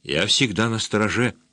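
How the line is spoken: Quiet. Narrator (Russian): тихо проговорила она

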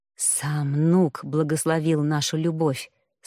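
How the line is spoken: Passionate whisper. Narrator (Russian): страстно шептали

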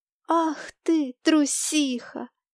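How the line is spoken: Laughing. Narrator (Russian): засмеялась

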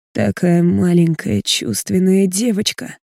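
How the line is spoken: Hoarse murmur against neck. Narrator (Russian): хрипло произносит мне в шею

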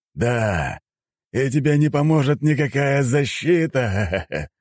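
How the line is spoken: Loud laughter. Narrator (Russian): расхохотался

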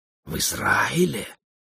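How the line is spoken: Astonished whispering crowd. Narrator (Russian): шептали пораженные гости

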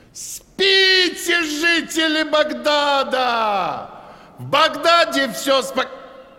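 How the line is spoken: Watchman yelling. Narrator (Russian): городской сторож Абд-аль-Кадир завопил

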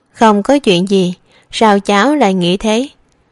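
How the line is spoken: Sudden laugh, asking. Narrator (Vietnamese): An Hồng Đậu đột nhiên bật cười, hỏi

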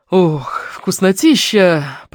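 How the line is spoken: Voluptuous moan. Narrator (Russian): простонал сладострастно

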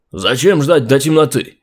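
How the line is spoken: Militant shouting. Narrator (Russian): крикнул кто-то из боевиков

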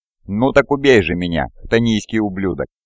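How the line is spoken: Hushed reverent voice. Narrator (Russian): Абаддон заговорил тихим голосом, как будто мы стояли внутри священного собора

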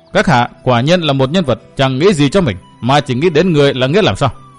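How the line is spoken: Sudden loud young woman. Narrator (Vietnamese): Thiếu nữ cung trang đột nhiên lớn tiếng

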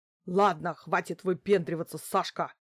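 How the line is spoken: Sudden growl. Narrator (Russian): Неожиданно рыкнула на охранника странная женщина

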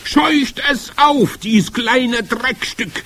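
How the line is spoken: Witch's shriek. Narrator (German): kreischte die Hoch- und Großmeisterhexe

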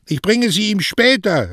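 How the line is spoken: Calling back. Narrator (German): rief Mario zurück

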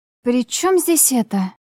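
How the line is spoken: Puzzled exhale. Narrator (Russian): Выдохнула я недоуменно

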